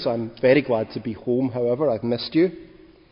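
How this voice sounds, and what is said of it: Scottish accent. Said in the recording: “I have a little bit of an accent ... people tell me I sound like an American”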